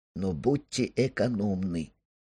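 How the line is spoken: Quiet. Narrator (Russian): тихо прибавил Сандер

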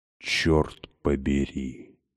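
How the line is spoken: Stunned whisper. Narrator (Russian): прошептала я ошеломленно

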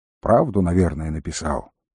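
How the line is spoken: Quiet reply. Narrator (Russian): также негромко ответил волкодав

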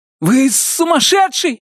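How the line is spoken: Exclaiming, then yelling louder. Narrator (Russian): воскликнул племянник Джорджа Харви и заорал еще громче

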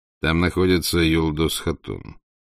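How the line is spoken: Calm. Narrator (Russian): сказал спокойно Батухан

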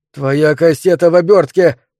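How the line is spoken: Shout. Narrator (Russian): крикнул мистер Делевин

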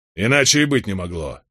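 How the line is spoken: Angry, raised voice. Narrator (Russian): сердито возвысил голос Роберт

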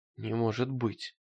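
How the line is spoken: Mumbling. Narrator (Russian): пробормотал он

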